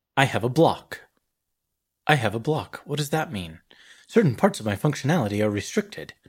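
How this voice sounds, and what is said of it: Not very good EDI impression. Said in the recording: “That's not a very good Edie impression.”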